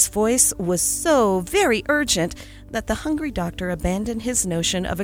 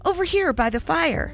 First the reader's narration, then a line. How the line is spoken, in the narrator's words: begged Roger